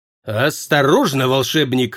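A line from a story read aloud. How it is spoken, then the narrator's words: Growled. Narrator (Russian): рыкнул Прат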